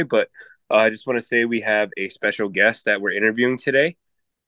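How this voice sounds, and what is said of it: Hoarse, croaky, strained voice. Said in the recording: “my voice is kind of really messed up. Sound like a frog. Sounds like I've been smoking 100 cigarettes today ... the boys sang a little bit too loud, so had to really use my voice”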